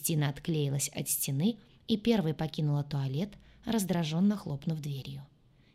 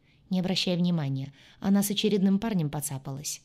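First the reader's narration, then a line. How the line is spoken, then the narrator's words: Sighing female friend. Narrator (Russian): вздохнула подруга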